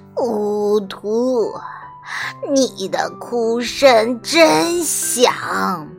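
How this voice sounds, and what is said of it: Hoarse witch character voice. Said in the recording (Chinese): “黑女巫用沙哑的声音说”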